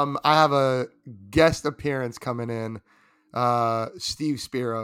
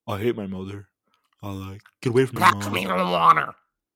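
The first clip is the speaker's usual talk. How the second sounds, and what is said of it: Bad, garbled impression of a character voice. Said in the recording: “A bad impression of the voice... that was not English, dog”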